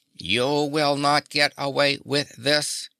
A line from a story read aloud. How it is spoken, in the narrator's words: warned Tik-Tok in his mechanical voice